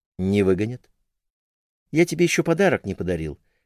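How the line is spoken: Unexpectedly calm man. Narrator (Russian): неожиданно спокойно ответил он

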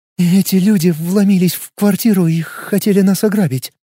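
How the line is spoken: Trembling voice. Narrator (Russian): дрожащим голосом произнесла Вики

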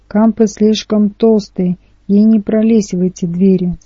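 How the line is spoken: Hopeful sigh. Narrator (Russian): с надеждой вздохнул я

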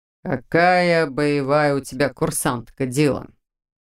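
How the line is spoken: Snort, stocky man. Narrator (Russian): Снова хмыкнул невысокий широкоплечий легионер

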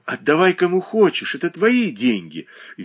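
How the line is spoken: Cheerful, good-natured young man. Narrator (Russian): весело и добродушно проговорил юный Боголюбов

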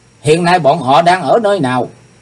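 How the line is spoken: Loud shout. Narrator (Vietnamese): Chàng quát to lên

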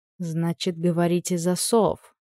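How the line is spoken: Muttering. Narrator (Russian): пробормотала

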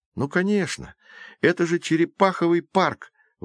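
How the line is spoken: Exclamation. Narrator (Russian): воскликнул Джейсон

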